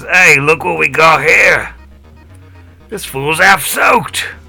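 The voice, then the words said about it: Yosoki character voice. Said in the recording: “do a Yosoki voice”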